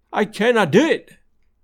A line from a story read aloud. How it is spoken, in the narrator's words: he cried again